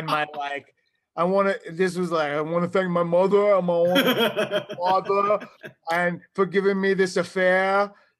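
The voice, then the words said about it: Strong New York accent. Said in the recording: “hearing how pathetic my New York accent”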